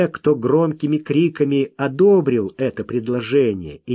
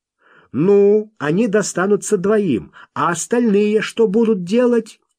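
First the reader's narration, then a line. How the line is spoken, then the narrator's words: New voice shouting. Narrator (Russian): новый голос выкрикнул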